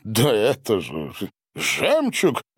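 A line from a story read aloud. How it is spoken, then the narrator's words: Exclamation then laughter. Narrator (Russian): воскликнул Гарин и расхохотался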